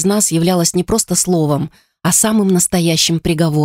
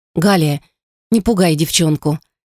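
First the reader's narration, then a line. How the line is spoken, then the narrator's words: Soft, gentle. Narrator (Russian): мягко произнесла грузная девушка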